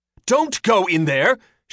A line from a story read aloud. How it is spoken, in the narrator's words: she shouted in Mabra Horing